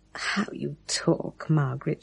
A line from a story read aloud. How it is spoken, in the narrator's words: she murmured, not knowing what else to say